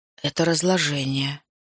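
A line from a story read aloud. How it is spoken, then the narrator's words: Said quietly. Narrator (Russian): тихо произнес Саммерин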